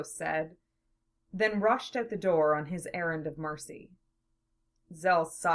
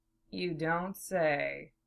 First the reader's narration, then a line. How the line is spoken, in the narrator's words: Zell replied dryly